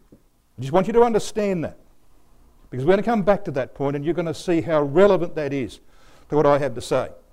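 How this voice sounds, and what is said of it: Australian accent. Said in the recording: “Your speaker tonight is a brother of the land of Australia. ... I'm not an American. You can tell that by my accent.”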